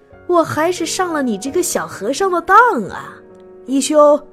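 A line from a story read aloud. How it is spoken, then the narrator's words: Hearty laughter. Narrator (Chinese): 一满哈哈大笑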